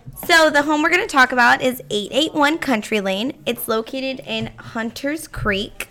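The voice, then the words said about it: Hoarse, worn-out voice. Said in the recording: “Sorry, I stayed up late. That's why my voice is gone.”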